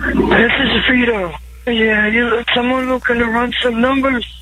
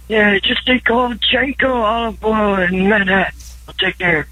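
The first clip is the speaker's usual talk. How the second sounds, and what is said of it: Poor imitation of another voice. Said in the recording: “That was terrible. ... That was bad. ... Terrible impression.”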